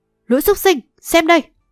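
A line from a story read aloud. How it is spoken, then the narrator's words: Powerful ringing shout. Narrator (Vietnamese): Đạn liền vận mạnh chân khí đan điền quát vang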